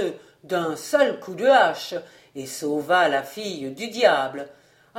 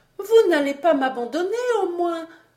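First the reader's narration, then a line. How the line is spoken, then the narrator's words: Whimpering woman. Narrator (French): dit la belle en pleurnichant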